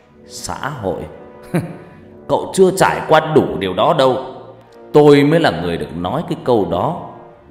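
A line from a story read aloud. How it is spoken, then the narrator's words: Loud laugh then speaking. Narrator (Vietnamese): Ông Kiên Nát cười lớn, rồi ông ta nói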